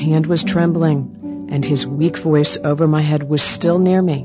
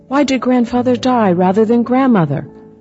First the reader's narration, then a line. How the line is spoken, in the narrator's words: cried again